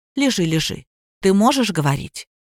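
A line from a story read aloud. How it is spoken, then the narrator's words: Quiet. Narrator (Russian): тихо сказал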